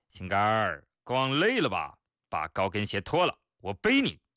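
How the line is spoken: Deliberately loud. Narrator (Chinese): 故意大声说

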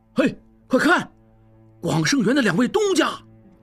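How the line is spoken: Someone calling out. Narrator (Chinese): 有人喊

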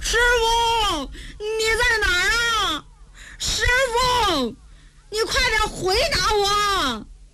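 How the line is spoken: Calling out while searching. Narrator (Chinese): 傻大姐是一边找还一边喊

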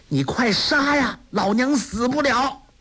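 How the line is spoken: Angry. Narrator (Chinese): 梅超风怒道

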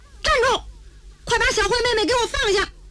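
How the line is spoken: Angry shout. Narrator (Chinese): 程志这火往上冒，大喊一声

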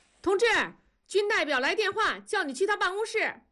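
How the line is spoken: Distant shout. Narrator (Chinese): 远处传来了喊声

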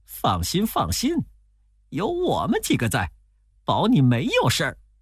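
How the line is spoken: Laughing. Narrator (Chinese): 悟空笑着说

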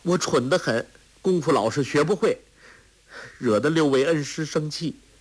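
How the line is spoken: Choked, tearful. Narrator (Chinese): 郭靖心里一酸，哽咽着说

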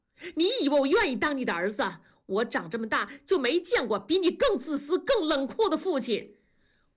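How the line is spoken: Sudden shout. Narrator (Chinese): 大宝突然的吼叫

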